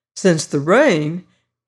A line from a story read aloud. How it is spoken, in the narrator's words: he exclaimed